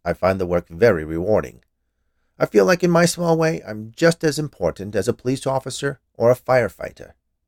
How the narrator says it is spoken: he said, in a somewhat defensive tone

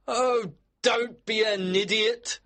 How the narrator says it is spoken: Harris shouted

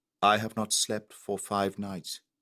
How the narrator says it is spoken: answered the Malay in a deliberate tone

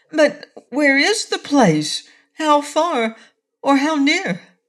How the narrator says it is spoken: asked Cake anxiously

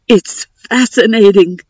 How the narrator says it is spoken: I heard him gasp

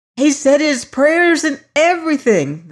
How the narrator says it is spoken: they all screamed out

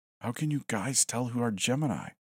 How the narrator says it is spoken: I whispered

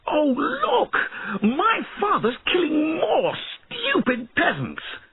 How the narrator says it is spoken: Then he suddenly shouted

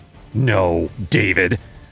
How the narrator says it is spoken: she snapped, her eyes blazing

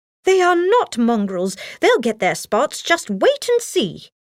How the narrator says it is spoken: Nanny exclaimed

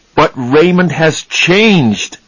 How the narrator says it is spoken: Charlie said angrily

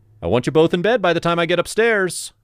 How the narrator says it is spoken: shouted

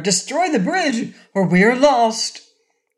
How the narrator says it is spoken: cried Cor

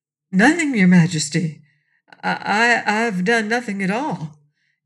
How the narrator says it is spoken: answered Pon in a faltering voice

